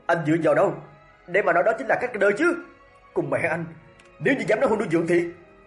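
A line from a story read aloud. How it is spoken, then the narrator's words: Roaring. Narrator (Vietnamese): y gầm lên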